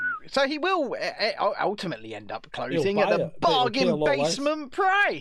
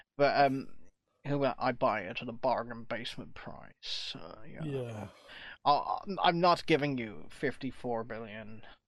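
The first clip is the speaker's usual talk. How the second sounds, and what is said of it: Weak Elon Musk impression. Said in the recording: “I can't really do his accent. His accent's really weird. ... you're not Elon Musk”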